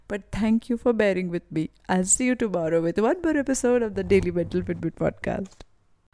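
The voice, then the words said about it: Voice changed by a cold. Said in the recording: “I still have some cold and that's why my voice is sounding a little different today.”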